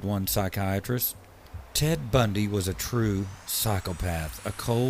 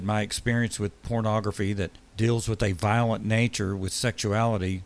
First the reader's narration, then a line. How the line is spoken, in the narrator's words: he said